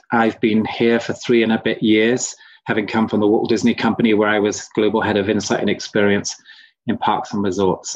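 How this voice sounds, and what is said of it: British (London) accent. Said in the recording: “as you may tell from my accent, I'm not from Utah ... I was born in London.”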